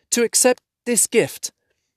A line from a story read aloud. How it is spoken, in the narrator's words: said Bilbo, stammering